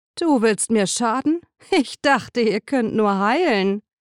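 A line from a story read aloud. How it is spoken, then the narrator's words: Laughing, then serious. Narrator (German): antwortete lachend und wurde ernst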